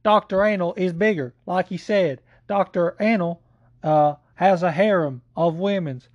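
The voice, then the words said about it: Imitates another person's voice. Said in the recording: “in my Joe Exotic voice”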